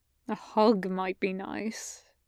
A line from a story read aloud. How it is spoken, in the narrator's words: Gabriel mumbles